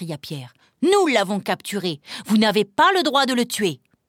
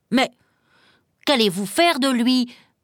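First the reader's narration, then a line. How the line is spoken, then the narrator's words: Stammering hunter. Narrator (French): bégaya le troisième chasseur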